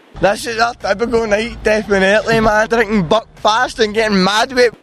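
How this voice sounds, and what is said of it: Strong regional accent, hard to understand. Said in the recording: “you're gonna talk a little slower because I can't understand your accent ... I definitely cannot understand your accent”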